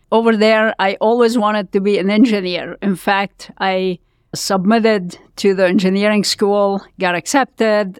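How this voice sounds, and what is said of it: Lebanese accent. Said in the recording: “I was born in Lebanon. You can tell from my accent, I'm sure.”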